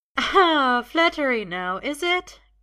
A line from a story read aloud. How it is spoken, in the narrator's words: Gwen says, laughing